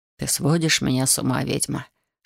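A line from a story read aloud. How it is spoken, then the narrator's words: Whispered. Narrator (Russian): шепнул он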